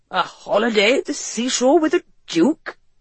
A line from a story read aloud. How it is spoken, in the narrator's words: her father exclaimed, looking befuddled